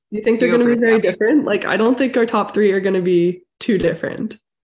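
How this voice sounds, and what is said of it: Congested, funky-sounding voice. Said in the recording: “I still have a cold, and that's why my voice is super funky.”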